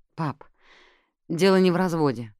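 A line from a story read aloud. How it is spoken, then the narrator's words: Tired objection. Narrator (Russian): устало возразил Рори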